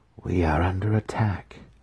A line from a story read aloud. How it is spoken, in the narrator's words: Jennifer breathed to them, her head already pounding with a dull ache